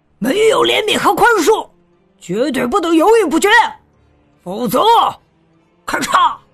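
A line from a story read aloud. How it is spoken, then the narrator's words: Roaring. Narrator (Chinese): 他又吼道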